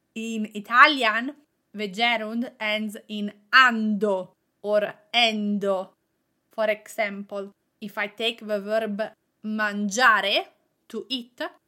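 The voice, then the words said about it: Italian accent. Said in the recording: “I have a strong ing with my Italian accent.”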